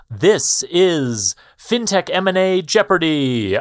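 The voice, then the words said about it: Jeopardy game show announcer voice. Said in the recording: “in my best Jeopardy voice”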